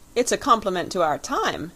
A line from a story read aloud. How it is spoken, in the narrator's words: exclaimed the young man, with a little laugh in spite of himself